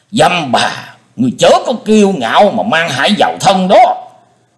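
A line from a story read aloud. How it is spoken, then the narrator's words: Thunderous roar. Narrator (Vietnamese): Nghe thấy giọng nói như trêu chọc của đối thủ, Linh Châu đạo nhân gầm lên như sấm chưởng nổ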